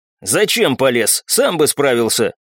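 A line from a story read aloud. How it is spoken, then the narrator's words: Irritated question. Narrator (Russian): водитель раздраженно спросил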